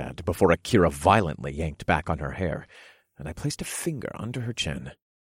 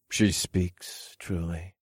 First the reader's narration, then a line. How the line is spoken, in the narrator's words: I said in a faint voice